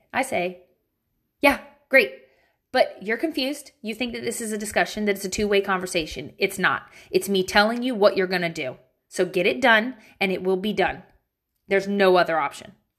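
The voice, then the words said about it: Irritated stern mom voice. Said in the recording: “Let me give you my mom voice. I gotta channel my irritation. ... that was my mom voice. I'm mad now”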